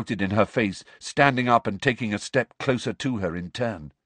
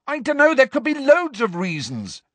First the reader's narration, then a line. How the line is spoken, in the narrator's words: Harry yelled at her